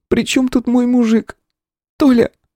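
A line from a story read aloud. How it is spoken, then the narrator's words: Sobbing, hoarse breaths. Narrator (Russian): всхлипнула она, сипло выдыхая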